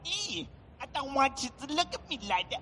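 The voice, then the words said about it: Imitates a video game character's voice. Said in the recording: “That impression is uncanny. Yeah. It's crazy how life like that is.”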